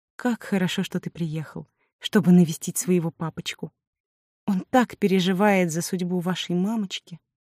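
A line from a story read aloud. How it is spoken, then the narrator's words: Sugary sweet female voice. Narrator (Russian): произнесла сладким голосом секретарша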